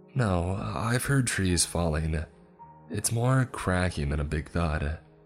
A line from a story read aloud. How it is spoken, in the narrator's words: Abby said, trying to keep her voice even